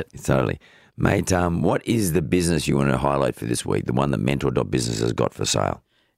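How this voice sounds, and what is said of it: Voice sounds off, altered. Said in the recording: “My voice has gone off a bit. ... Very different this week, isn't it?”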